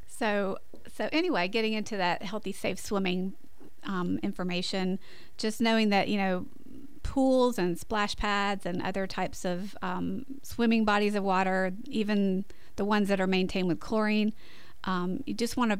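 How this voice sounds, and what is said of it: Scratchy voice. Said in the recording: “My voice is getting scratchy this morning.”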